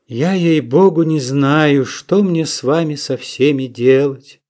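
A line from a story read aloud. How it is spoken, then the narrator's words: Loud sigh. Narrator (Russian): Шура громко вздохнула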